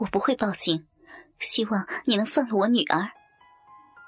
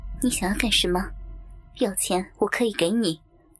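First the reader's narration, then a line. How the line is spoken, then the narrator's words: Icy cold. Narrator (Chinese): 他粉面寒霜，冷冷说道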